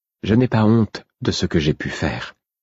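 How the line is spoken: Even, calm tone. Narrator (French): dit-elle d'un ton égal

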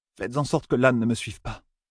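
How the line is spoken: Murmur. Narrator (French): murmura-t-elle

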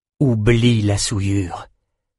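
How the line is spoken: Plain. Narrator (French): dit Richard

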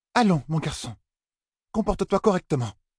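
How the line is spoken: Exclaimed. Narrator (French): s'écria maîtresse Alvéré

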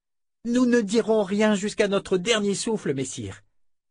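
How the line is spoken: Exclaimed. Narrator (French): s'écria Fitch

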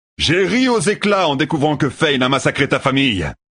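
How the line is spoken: Shouted. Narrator (French): cria Tueur

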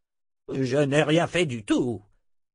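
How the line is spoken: Grumbling. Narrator (French): grogna Zed

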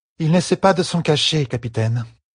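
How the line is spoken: Weary, uninterested tone. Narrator (French): fit Elaine d'un ton las, comme si le sujet ne l'intéressait plus

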